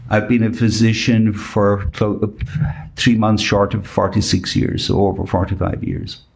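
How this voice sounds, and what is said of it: Irish accent. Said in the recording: “Not that anybody noticed the accent, but but are you from Dublin?”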